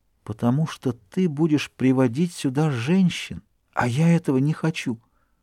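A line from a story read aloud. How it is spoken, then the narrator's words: Soft tender whisper. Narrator (Russian): тихо, нежно прошептала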